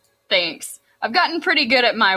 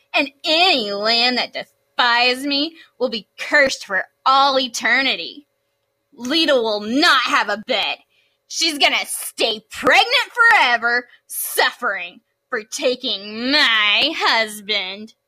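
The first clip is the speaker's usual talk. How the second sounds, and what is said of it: Whiny, jaded goddess voice. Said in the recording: “good Hera impression ... my whiny, jaded marriage goddess impressions”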